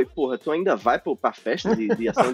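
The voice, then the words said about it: Imitated northeastern Brazilian accent. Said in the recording (Portuguese): “sotaque nordestino? ... A entonação mudou toda. ... A entonação foi, completamente diferente.”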